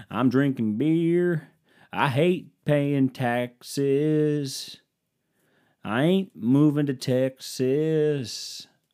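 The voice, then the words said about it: Put-on Southern twang. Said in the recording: “You get a little southern twang to my voice”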